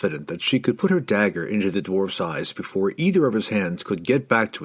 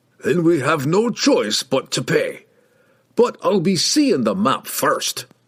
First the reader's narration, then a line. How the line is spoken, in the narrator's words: he grumbled